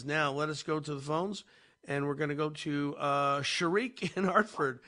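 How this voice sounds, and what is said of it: Hoarse, raspy voice. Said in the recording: “You still sound like a little bit of Godfather anyway ... a little hoarseness there ... Just my voice is not quite there yet”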